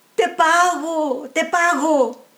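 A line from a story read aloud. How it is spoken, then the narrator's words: Man shouting. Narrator (Spanish): gritó el hombre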